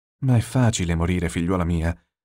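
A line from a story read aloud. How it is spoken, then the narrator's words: Sighed. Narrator (Italian): sospirò Anna Veronica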